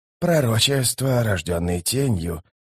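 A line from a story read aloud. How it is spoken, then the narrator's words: Muttered. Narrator (Russian): пробормотал верховный жрец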